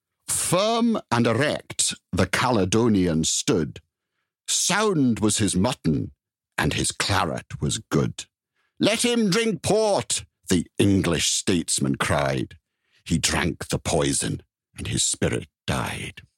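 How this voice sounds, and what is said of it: Put-on Scottish accent. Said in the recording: “read this poem in my best Scots accent”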